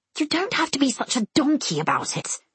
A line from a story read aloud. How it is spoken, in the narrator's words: I hiss